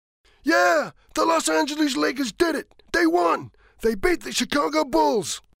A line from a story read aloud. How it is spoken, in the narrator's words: he shouts